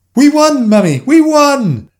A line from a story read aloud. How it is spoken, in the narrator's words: they screamed in delighted unison